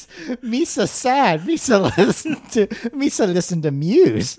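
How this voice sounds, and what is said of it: Jar Jar Binks character voice. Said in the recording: “doing the Jar Jar voice”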